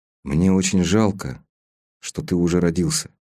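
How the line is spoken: Quiet. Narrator (Russian): тихо сказал Стась

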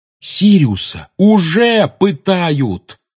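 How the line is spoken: Shouted out. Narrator (Russian): выкрикнул Гарри

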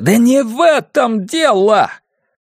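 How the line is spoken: Near groaning. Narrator (Russian): Джек чуть не стонал

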